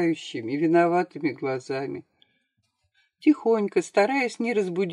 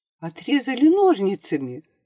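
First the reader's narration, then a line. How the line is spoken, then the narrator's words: Agitated question. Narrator (Russian): спросил он взволнованно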